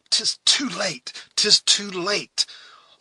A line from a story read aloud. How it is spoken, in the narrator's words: Hawkeye exclaimed, in bitter disappointment